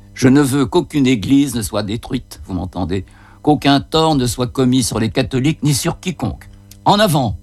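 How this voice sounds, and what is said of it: Occitan accent with rolled r's. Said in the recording (French): “son accent occitan qui roule les airs”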